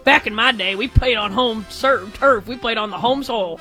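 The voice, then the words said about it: Grumpy old grandpa voice. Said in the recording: “like a grandpa. ... my best Drake Toll impression.”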